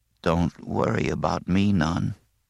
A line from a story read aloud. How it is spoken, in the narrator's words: said May, in the same exhausted voice